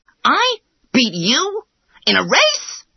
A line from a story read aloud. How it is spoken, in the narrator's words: exclaimed the hare, he laughed so much